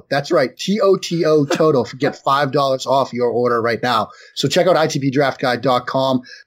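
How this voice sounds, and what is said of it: Boston accent. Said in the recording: “I talk with a Boston accent”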